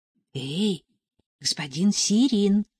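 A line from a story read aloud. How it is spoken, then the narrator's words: Soft call. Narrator (Russian): тихонько позвала Нелли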